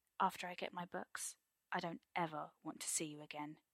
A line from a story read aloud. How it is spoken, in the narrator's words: he says after a minute, speaking only when he knows his voice will be steady